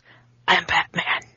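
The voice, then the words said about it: Imitates a Batman voice. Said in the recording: “I don't know if my voice is ready... I like the Christian Bale thing you've got going on.”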